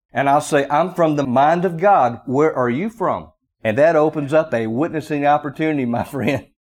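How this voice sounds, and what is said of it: Strong Southern American drawl. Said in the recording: “I have somewhat of a strong Southern drawl ... you sound so different”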